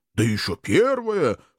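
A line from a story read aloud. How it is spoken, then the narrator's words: Chuckling agreement. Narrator (Russian): хохотнув, поддержал его сосед напротив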